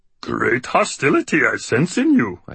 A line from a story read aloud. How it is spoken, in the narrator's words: I said in a muppety voice